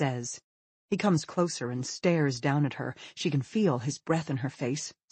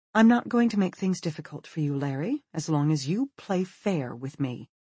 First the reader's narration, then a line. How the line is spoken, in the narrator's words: she says, in a mild voice